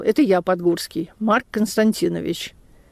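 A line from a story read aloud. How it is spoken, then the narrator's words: Calm old man. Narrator (Russian): Старик спокойно сказал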